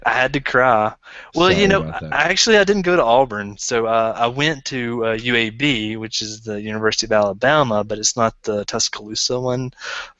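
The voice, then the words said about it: Southern US accent. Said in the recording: “you're from the South, right? They were asking you earlier where that accent is from. So where'd you find that accent? ... Birmingham, Alabama.”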